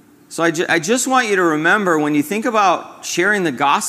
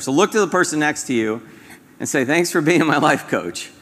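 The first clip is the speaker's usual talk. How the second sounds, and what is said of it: Sarcastic, humorous delivery. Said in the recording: “I say that sarcastically, kind of humorously”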